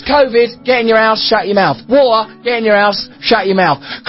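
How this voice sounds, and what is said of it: Russell Brand's pretty cool accent. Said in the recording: “Russell Brand, if you couldn't make out the pretty cool accent”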